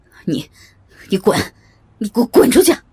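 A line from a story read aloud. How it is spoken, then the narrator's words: Furious shout through teeth. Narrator (Chinese): 郝市长双眼充血，咬牙切齿的喊道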